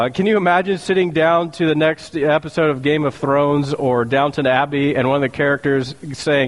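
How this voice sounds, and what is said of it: Usual voice. Nothing is said of it.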